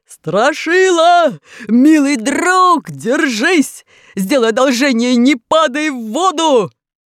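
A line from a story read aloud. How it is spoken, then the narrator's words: Deafening yell through funnel. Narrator (Russian): приложил ко рту как рупор и оглушительно заорал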